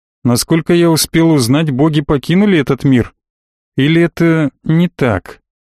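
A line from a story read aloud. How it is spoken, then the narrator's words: Plain. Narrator (Russian): спросил я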